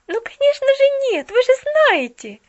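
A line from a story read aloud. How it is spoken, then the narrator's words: Jubilant exclamation. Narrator (Russian): ликующе воскликнула Поллианна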